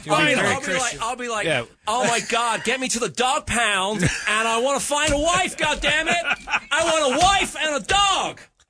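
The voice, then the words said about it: Put-on American accent. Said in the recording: “I'm going to speak with an American accent ... That's what Americans sound like to you.”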